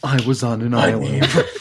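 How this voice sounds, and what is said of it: Imitates a TV hero's voice. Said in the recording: “I'm going to read these in my Arrow voice. ... It's Oliver Queen.”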